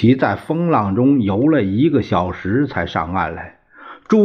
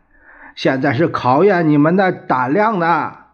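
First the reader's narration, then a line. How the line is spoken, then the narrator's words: Shouting. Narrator (Chinese): 他又在浪尖上喊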